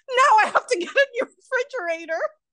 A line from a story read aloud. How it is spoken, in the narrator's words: He yelled, panicked